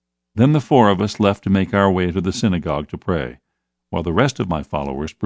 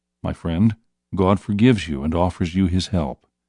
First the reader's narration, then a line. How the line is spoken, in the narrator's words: saying softly